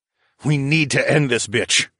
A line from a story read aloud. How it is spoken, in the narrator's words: I growled